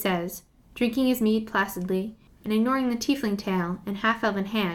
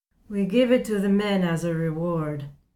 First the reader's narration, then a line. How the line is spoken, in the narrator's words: Jarrett says, only slurring a little